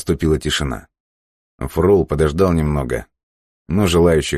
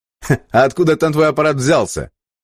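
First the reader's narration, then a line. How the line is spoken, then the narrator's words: Asked through laughter. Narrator (Russian): от хохота спросил Илья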